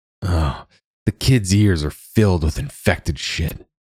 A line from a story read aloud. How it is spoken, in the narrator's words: Hickory hissed